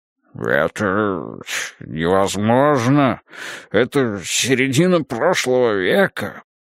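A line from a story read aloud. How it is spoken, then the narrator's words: Babbling again. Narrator (Russian): Полос опять пролепетал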